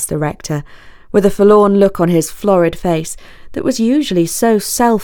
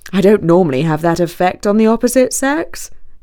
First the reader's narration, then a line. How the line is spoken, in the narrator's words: said, recovering his poise